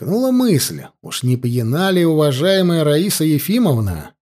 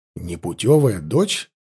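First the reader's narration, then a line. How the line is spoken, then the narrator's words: Confused questioning. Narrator (Russian): Растерянно переспросил Данилов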